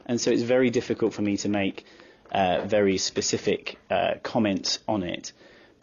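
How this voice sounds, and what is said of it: Non-American accent. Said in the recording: “as you can probably tell from my accent, I'm not American”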